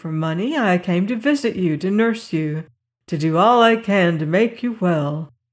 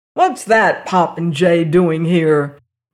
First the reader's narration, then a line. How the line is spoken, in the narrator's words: thundered Dr